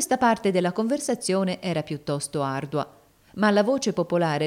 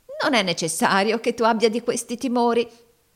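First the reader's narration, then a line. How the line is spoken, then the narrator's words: Warm laughing. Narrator (Italian): notò la moglie ridendo cordialmente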